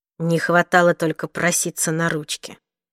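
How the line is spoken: Through clenched teeth. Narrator (Russian): сквозь зубы произнес Уилл

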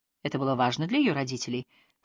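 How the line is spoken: Plain. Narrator (Russian): спросил Ханкин

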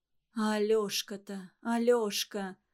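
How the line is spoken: Inner moan. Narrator (Russian): застонала в душе Ларисы

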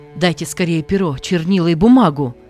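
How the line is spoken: Young man shouting. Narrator (Russian): закричал молодой человек

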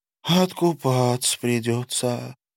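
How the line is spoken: Sighing. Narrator (Russian): вздохнула

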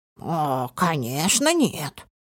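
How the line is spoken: Offended snort. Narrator (Russian): Она оскорбленно фыркнула

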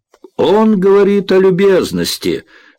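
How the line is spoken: Loud proclamation. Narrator (Russian): громко провозгласила Морин

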